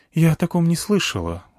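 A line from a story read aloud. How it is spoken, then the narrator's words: Sighing female sniper. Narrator (Russian): вздохнула снайперша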